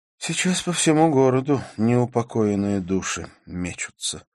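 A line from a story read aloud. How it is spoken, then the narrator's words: Sighed. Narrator (Russian): вздохнула Карла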